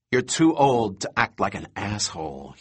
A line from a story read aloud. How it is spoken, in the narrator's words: he said quietly